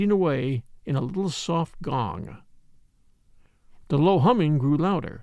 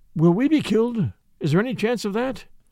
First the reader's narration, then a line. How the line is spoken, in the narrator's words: cried Peter Horn